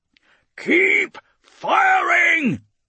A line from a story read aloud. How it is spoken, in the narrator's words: he shouts again, not knowing whether anyone is heeding his commands or whether this is some terminal spiral into oblivion